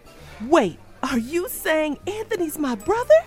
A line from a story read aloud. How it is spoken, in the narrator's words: I gasped